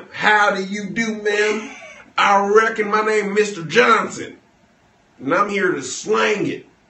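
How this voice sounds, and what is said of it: Put-on Southern cowboy accent. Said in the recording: “Southern accents ... a real Southern ma'am”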